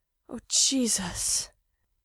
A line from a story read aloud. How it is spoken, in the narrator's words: Mikey moans